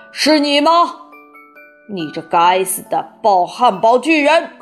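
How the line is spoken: Wild yell. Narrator (Chinese): 他一声狂叫

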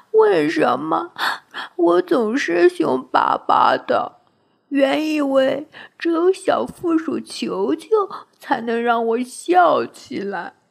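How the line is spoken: Crying. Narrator (Chinese): 他哭着说

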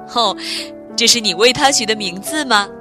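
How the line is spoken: Smiling question. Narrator (Chinese): 爸爸笑着问道

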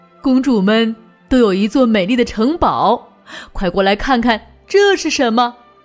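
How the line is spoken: Smiling. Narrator (Chinese): 爸爸笑着说

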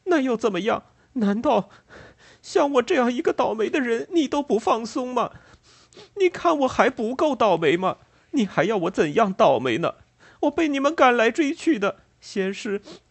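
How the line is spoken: Sobbing. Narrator (Chinese): 乔呜呜的哭道

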